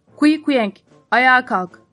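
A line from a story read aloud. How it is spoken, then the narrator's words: Shouted. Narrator (Turkish): diye bağırdı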